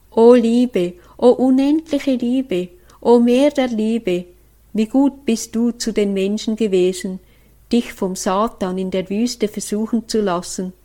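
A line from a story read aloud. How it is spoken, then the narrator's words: Fervent prayer. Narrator (German): ich rief Jesus in seiner Liebe an und sagte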